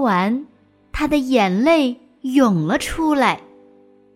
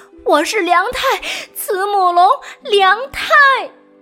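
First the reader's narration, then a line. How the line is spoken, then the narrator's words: Panting dinosaur. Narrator (Chinese): 霸王龙喘着粗气说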